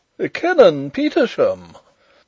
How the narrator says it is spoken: exclaimed the Professor

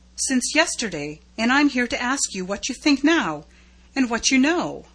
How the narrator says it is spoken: he gasped

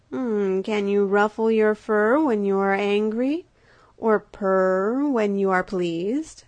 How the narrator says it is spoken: said she

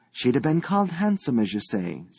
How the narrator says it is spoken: said Mrs

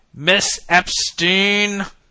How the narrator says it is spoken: he bellowed

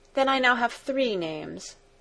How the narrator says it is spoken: she added with a sigh

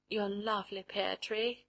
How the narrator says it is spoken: she murmured

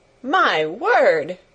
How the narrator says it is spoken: cried delighted Martha

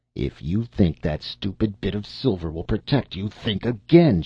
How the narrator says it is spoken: snapped

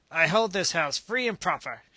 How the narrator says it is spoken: she said in a determined roar

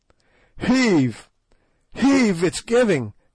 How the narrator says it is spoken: gasped Sir Henry, and I heard the muscles of his great back cracking

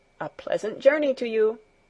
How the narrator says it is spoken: Herr Sesemann called out once more

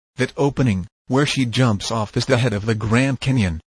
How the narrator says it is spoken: said Knob

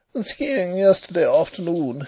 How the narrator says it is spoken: said he with a little laugh

